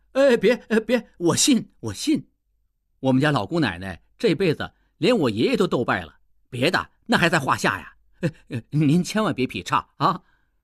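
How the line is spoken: Hurried shout. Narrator (Chinese): 应季急忙叫起来

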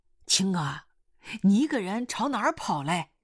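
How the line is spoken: Calling out. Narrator (Chinese): 狗老师喊他

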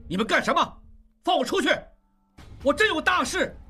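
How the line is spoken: Angry shout. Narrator (Chinese): 应季怒声大喊

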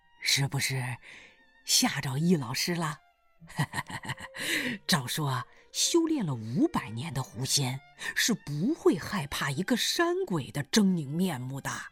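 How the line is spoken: Smiling bearded man. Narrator (Chinese): 大胡子冲他笑笑说

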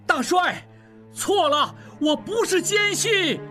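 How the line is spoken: Shouting. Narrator (Chinese): 应季大叫

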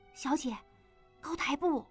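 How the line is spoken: Low reminding voice. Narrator (Chinese): 喜凤低声提醒依依

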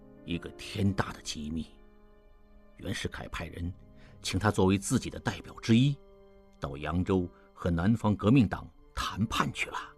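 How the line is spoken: Low voice. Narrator (Chinese): 潘维言低声说

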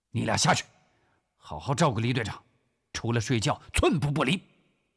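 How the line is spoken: Shouted order. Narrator (Chinese): 古正文吼道

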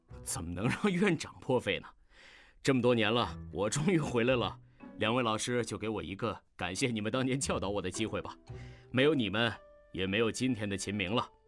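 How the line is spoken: Smiling, warm. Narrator (Chinese): 秦明此时的表情已经恢复正常，微笑着说

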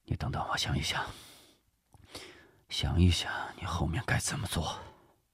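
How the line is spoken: Thoughtful murmur. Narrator (Chinese): 周志柔思忖片刻，喃喃说道

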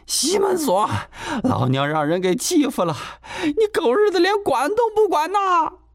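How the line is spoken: Shouting into loud sobbing. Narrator (Chinese): 喊着喊着就放声大哭起来

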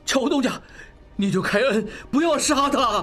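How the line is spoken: Loud pleading. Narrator (Chinese): 望石大声哀求

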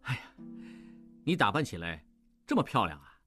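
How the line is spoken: Surprised admiring exclamation. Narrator (Chinese): 意外地，不由赞叹道

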